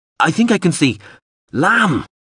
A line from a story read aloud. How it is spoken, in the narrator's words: Mip said more urgently